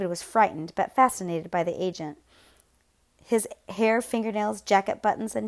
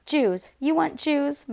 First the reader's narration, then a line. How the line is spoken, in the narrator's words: Mella shouted